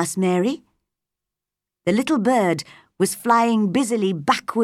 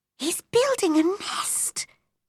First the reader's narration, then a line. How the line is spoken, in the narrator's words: whispered Mary